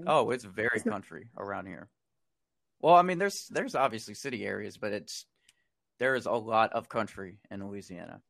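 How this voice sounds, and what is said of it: Mild Southern drawl. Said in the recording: “I couldn't tell with your drawl... my Louisiana talk... a mild southern accent”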